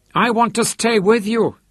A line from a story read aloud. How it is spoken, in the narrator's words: he cried